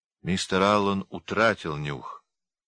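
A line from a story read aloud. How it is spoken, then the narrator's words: Gloomy speech. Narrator (Russian): сказал мрачно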